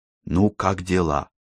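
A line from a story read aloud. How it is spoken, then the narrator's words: Whispered question. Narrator (Russian): шепотом поинтересовался он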